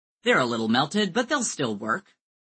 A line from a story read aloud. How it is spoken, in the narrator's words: Joe declared cheerfully